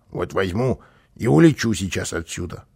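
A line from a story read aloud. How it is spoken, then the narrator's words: Grumbling. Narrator (Russian): проворчал он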